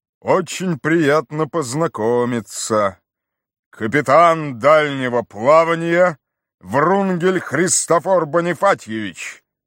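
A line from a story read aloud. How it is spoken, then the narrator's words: Booming bass. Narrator (Russian): произнес он громовым басом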